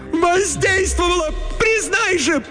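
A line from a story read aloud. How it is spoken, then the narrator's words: Shrill, gull-like shriek. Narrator (Russian): Пронзительным, как у чайки, голосом выкрикнула Летиция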